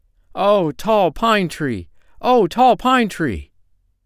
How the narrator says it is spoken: he cried in joy

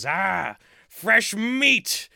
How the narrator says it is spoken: the dwarf gives a big smile and a cackle and he says

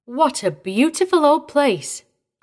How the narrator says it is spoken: exclaimed, with an effort to put her at ease again

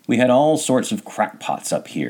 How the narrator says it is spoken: she said

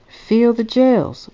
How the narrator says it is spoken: pleaded, meeting after meeting

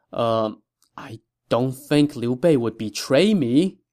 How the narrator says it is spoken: This admonishment left Lu Su dumbfounded for a good while, and then he muttered

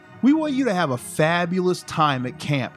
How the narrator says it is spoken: Jody cried

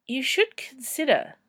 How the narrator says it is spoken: said Ferd hesitantly

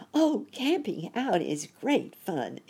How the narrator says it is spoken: exclaimed Sammy, because he was so glad

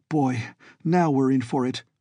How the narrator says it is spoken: gasped

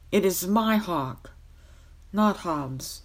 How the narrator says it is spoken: exclaimed Kay furiously

